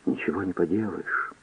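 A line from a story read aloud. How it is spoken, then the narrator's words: Barely audible. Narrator (Russian): еле слышно произнесла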